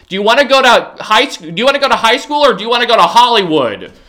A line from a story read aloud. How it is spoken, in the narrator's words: he just yelled seriously